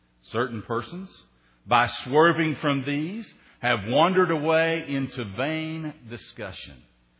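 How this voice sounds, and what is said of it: Tennessee Southern American accent. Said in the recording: “I grew up on the Tennessee River, so if you're new, that's the part of the accent that you're missing there, that Tennessee boy that still lives somewhere within me”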